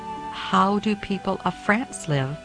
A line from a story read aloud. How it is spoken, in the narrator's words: she asked him